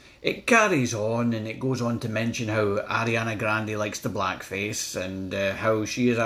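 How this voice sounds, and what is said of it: Usual voice. Nothing is said of it.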